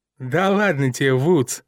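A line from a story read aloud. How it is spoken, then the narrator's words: Giggling. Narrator (Russian): хихикнул Скотт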